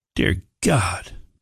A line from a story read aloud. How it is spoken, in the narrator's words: Billy muttered when they could see the man's injuries